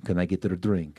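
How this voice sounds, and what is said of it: Imitates another person's accent. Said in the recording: “In his accent”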